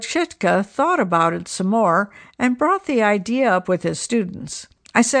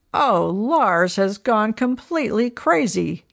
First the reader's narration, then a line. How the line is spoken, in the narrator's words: Everyone laughed and said